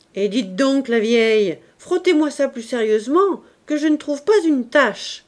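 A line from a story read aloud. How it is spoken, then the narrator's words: Shouted. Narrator (French): criait M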